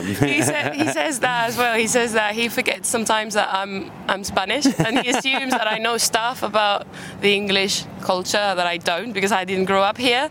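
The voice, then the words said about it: Nice British English accent. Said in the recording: “you already have a very nice accent ... you really have a nice British accent”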